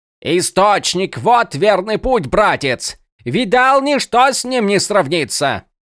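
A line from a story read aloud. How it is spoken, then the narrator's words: Repeated shouting. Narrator (Russian): Он кричал и кричал на Малфуриона, которого здесь не было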